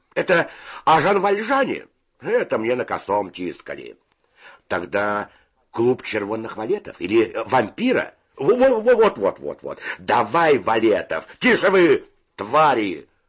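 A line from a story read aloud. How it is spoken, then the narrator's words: Shouting. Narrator (Russian): закричал Федя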